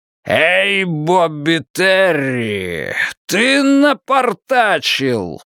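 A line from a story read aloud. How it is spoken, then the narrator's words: Roared. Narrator (Russian): проревел темный человек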